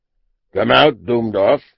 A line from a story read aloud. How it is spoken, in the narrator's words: he called in his big, bellowing voice